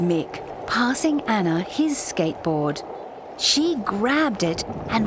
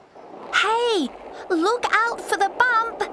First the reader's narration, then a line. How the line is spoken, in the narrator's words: shouted